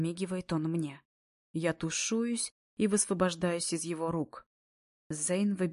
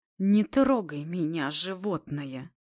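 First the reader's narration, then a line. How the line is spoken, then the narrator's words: Angry hiss from behind. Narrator (Russian): Раздается за спиной злое шипение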